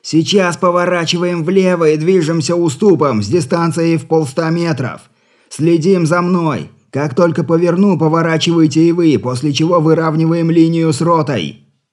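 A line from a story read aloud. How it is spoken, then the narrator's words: Shouting. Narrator (Russian): Григорий прокричал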